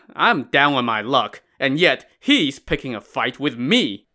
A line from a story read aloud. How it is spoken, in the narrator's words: From inside the woods came a loud chuckle as a man said